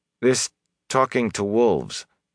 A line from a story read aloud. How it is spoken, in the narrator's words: Perrin said uneasily